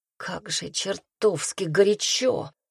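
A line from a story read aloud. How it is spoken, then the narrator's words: Sigh. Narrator (Russian): она вздохнула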